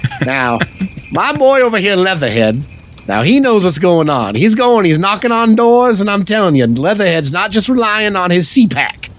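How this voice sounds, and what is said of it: Imitates another person's voice, Cajun-like. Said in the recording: “That's my James Carville. ... That's pretty good. ... I thought there was actually a Cajun.”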